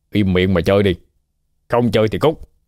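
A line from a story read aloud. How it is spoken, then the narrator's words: Angry bark. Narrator (Vietnamese): Cả đại ca đập bàn quát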